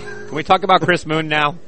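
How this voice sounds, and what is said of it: Serious announcer-style radio voice. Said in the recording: “you sound so serious when you do that ... That's my radio voice”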